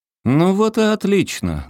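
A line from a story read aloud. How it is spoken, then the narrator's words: Loud firm shout. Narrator (Russian): громко и твердо крикнул Воейков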